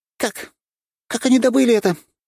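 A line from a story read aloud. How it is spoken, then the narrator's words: Near shriek. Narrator (Russian): почти визжала она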